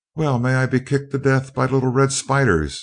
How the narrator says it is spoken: exclaimed Seaton, dumbfounded

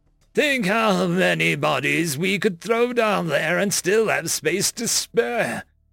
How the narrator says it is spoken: Nu said excitedly

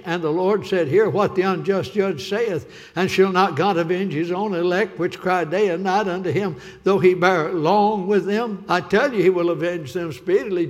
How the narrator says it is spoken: Jesus said

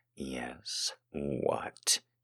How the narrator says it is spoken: he growled like I was honey to his hungry inner bear

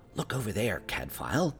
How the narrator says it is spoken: whispered

